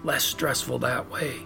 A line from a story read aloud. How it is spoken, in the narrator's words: The officer responded in a whisper of his own